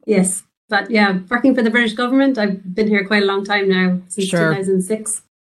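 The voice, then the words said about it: Irish accent. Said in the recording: “I have a very Irish accent. I come from Ireland originally ... I did sense you're a little Irish there”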